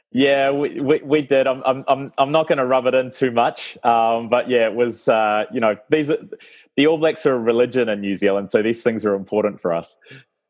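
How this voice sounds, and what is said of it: New Zealand accent. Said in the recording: “my funny accent”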